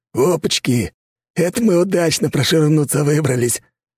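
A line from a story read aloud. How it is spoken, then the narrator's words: Joyful hoarse rasp. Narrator (Russian): радостно прохрипел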